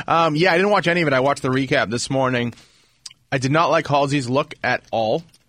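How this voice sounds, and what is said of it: Congested, stuffy voice. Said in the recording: “I have a little bit of a cold. ... you sound a little congested.”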